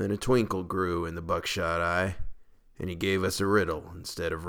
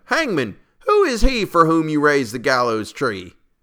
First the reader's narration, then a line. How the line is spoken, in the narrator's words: one cried